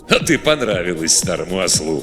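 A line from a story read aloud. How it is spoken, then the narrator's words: Chuckled. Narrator (Russian): хохотнул Готтер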